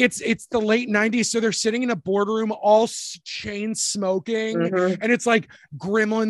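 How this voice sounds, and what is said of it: Usual voice. Nothing is said of it.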